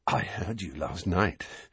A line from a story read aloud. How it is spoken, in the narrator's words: said Dudley breathlessly